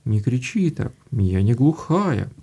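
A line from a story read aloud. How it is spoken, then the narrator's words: Completely calm old woman. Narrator (Russian): говорит бабушка совершенно спокойно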